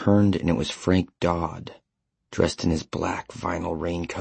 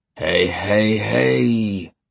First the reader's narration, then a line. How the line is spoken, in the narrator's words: Stilson chanted, his voice deep and resonant and ominous